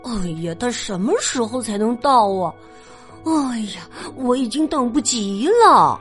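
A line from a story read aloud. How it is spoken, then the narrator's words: Repeated impatient muttering. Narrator (Chinese): 富兰克林 一遍又一遍的嘀咕着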